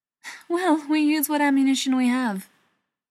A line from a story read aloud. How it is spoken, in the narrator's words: Beckett said with a laugh